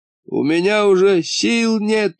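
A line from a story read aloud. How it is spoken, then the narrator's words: Groan. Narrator (Russian): простонал маховая борода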